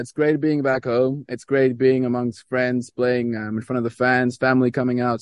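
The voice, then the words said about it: American-tinged accent. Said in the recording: “my American accent”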